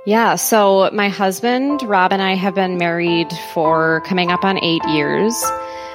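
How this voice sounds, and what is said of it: Thick Minnesota accent. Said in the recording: “Minnesotan ... Thick accent coming through.”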